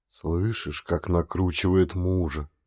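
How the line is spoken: Whisper. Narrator (Russian): шепнул Халил жене

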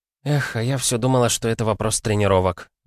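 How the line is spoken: Sighing, female. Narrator (Russian): вздохнула она

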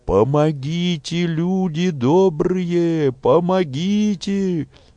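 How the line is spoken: Screaming for help. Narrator (Russian): закричала тетка Ольги

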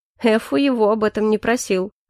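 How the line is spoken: Snorting. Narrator (Russian): хмыкнул Калипсо

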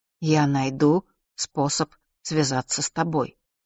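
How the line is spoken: Plain. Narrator (Russian): сказал он

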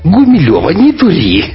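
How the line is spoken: Laughing. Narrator (Russian): рассмеялась Света

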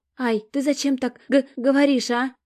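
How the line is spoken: Whimpering. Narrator (Russian): захныкала Стежка

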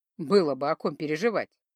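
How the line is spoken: Chuckle. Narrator (Russian): хохотнул Кумивар

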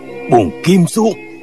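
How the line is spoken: Sudden shout. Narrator (Vietnamese): Phương Sinh bỗng quát

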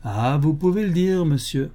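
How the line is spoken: Plain. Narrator (French): répondit l'homme

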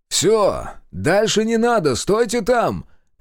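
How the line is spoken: Shouted. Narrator (Russian): крикнул Зотов

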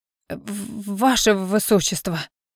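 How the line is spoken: Stammering old man objecting. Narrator (Russian): Заикаясь, возразил принцу невысокий белобородый старик

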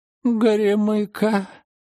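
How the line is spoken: Moan. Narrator (Russian): простонала Рима

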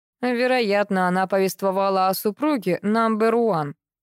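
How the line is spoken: Gloomy interruption. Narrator (Russian): мрачно перебил Юра

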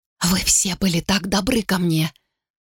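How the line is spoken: Whispered reply. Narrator (Russian): шепотом ответила

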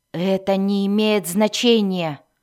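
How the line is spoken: Growling. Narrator (Russian): прорычал Альтан

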